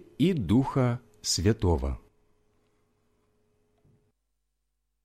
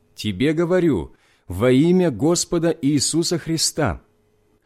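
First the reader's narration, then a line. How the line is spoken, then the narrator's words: Loud voice. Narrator (Russian): сказал громким голосом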